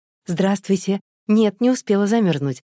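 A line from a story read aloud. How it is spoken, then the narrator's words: Joyful. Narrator (Russian): ответила Наташа радостно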